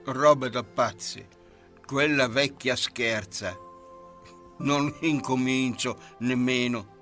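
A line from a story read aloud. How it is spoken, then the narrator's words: Mutter. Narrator (Italian): Elmerico borbottò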